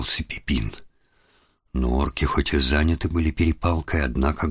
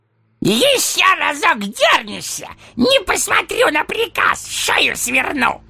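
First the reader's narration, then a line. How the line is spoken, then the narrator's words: Barking, angry roar. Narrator (Russian): рявкнул он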